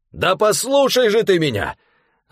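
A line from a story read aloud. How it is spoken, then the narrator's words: Yelling over loud noise. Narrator (Russian): заорал Стефан, перекрывая грохот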